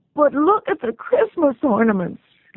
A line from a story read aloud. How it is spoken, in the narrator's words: Lizzie wailed